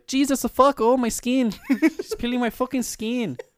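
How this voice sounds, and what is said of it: Bad put-on Irish accent. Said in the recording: “bad Irish accent ... Your Conor McGregor impression”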